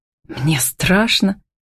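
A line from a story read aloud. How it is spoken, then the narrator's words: Whisper. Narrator (Russian): прошептала Фокина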